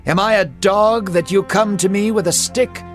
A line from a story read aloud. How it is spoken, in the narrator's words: Goliath laughed and spat towards him, saying